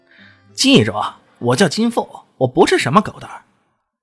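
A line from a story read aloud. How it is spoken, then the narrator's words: Loud. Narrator (Chinese): 他大声的说道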